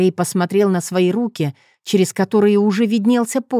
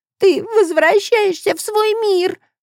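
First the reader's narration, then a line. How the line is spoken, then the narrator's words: Sobbing. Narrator (Russian): всхлипнула Агнес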